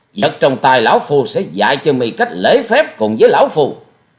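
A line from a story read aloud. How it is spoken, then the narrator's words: Furious loud shout. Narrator (Vietnamese): Bị đối phương khinh miệt, Thiết Diện Âm Ty như lửa cháy thêm dầu, quát to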